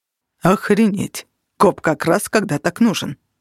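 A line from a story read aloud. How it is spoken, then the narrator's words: Muttering. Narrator (Russian): пробормотал факел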